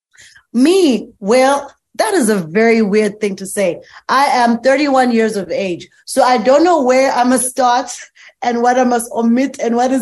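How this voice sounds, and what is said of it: South African accent. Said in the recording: “You're from Johannesburg, South Africa. You're talking with an accent”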